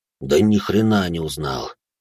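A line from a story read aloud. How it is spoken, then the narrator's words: Sighing man. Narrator (Russian): вздохнул мужчина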